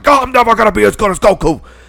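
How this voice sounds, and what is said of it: Cartoon character impression. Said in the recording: “That's a really good Vegeta impression”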